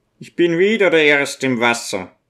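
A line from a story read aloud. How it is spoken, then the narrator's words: Laughing shout. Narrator (German): ruft er lachend und brüllt dem Abchiller zu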